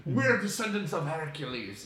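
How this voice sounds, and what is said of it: Put-on Scottish/Greek accent. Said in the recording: “in my Scottish, in my good Greek accent.”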